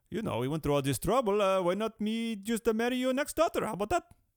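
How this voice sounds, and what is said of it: Attempted Indian accent. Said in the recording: “is supposed to be an Indian accent. ... I'm trying my best.”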